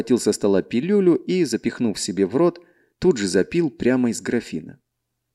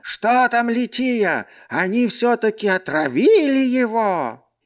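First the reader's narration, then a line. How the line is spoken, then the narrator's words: Old man's strangled shout. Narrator (Russian): седовласый старик и сдавленным голосом прокричал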